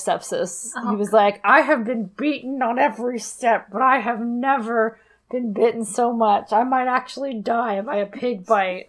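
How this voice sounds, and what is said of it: Bad imitation of another person's voice. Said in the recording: “bad Nicolas Cage impersonation”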